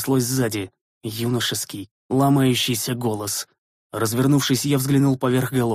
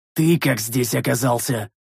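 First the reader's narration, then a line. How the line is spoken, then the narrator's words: Bark. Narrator (Russian): рявкнул я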